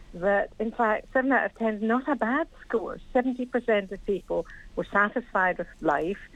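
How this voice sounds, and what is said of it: Scottish accent. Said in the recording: “I'm guessing from the accent, you're from north of the border... I'm a Scottish Londoner.”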